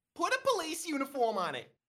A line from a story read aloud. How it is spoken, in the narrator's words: Nasty Kathy snaps it to another ninja